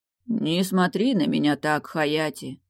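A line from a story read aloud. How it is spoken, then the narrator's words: Muffled, hollow voice. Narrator (Russian): произнес глухо Далиль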